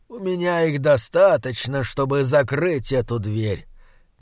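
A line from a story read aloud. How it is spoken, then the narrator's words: Soft, old man. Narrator (Russian): мягко сказал старик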